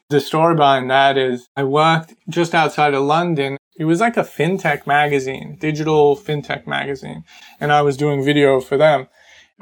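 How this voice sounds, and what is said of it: Australian accent. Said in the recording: “Because I was an Australian living in England, they used to tease me all the time about about my accent”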